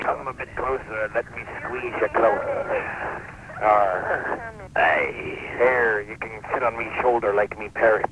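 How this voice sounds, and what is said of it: Pirate character voice. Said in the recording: “I be a pirate.”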